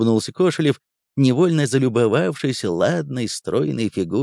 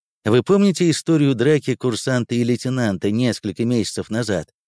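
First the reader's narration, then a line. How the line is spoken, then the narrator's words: Plain. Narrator (Russian): спросил Виктор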